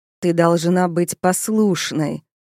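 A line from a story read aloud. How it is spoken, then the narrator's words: Growled. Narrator (Russian): прорычал он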